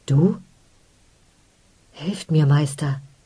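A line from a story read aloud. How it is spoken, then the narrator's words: Thin boy whispering. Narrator (German): flüsterte der magere Junge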